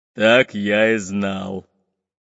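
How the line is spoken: Deep bass voice. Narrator (Russian): пробасил Буль-Буль

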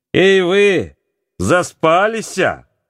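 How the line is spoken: Shouted. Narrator (Russian): закричал он на сестер и брата

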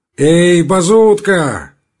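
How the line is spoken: Shouted. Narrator (Russian): крикнул он

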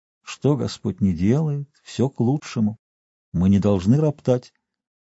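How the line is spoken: Quiet gentle speech. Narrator (Russian): доктор говорит тихо так, ласково

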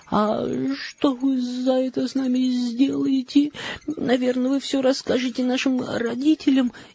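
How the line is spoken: Frightened question. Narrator (Russian): испуганно спросила Мари

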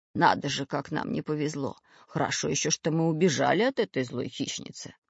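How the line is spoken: Muttering. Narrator (Russian): пробормотал Семен Семенович

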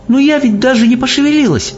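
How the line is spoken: Exclamation. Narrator (Russian): воскликнула Софи

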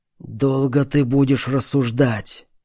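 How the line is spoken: Hateful hoarse rasp. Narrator (Russian): с ненавистью прохрипел босс

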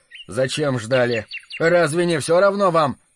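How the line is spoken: Rough, irritated. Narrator (Russian): Поборов волнение, он грубо и раздражительно сказал ей

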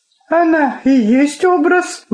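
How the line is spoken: Exclamation. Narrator (Russian): воскликнула Инга

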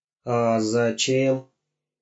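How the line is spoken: Sad question. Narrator (Russian): печально спросил Гоша

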